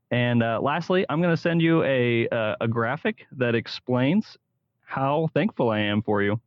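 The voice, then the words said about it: Smooth radio announcer voice. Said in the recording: “great radio voice too, man. You might want to go into radio. You got a good little radio voice there. Sounded awesome. Good audio.”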